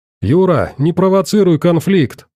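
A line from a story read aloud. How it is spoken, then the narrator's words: Yelling. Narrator (Russian): орал док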